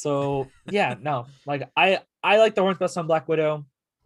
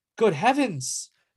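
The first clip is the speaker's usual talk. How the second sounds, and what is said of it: Poor put-on European accent. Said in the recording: “that's a terrible accent ... if I offended anyone in all of our European listeners”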